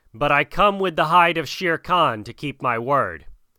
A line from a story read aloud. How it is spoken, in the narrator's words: shouted Mowgli